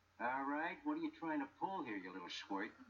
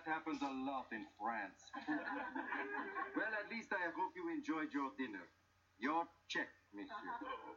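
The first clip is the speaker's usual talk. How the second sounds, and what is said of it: Put-on French accent. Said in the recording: “What happened to your accent? ... that French accent on that waiter”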